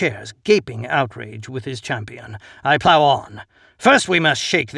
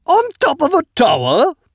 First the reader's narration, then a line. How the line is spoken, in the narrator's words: Mostok squeals